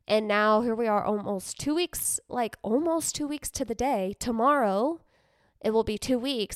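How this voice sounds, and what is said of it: Slightly funky, sick-sounding voice. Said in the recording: “I like still have this residual sickness. So that's why my voice sounds a little funky”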